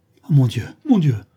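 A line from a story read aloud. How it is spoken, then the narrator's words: Terrified cry. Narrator (French): s'écria Charles Robert avec épouvante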